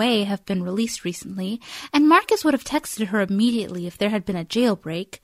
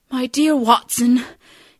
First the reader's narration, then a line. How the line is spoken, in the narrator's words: he says in a strained voice